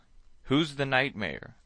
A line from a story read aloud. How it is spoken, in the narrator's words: I cried